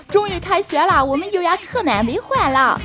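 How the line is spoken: Boisterous shouting. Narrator (Chinese): 老板们 大喊

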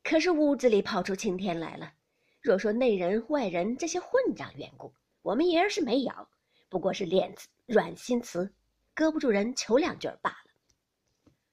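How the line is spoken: Laughing old nurse, pious exclamation. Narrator (Chinese): 赵嬷嬷也笑个不住，又念佛道

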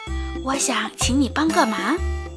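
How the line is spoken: Low, hushed voice. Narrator (Chinese): 乌鸦压低声音问道

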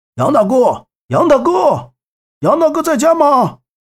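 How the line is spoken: Shouting from outside. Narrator (Chinese): 墙外面有人大喊着

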